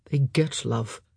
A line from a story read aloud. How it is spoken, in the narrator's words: he muttered